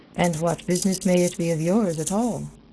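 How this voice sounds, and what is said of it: Irish accent. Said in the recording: “with a marked Irish accent.”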